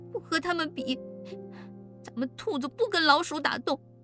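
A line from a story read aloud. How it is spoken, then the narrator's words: Crying. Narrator (Chinese): 奶坑……哭着说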